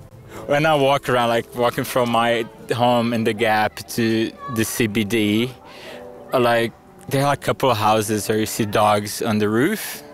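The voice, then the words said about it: Brazilian accent, can sound French. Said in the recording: “the only people that can tell I'm Brazilian are Queenslanders. Even people from Alice, they would normally think I'm French for my accent.”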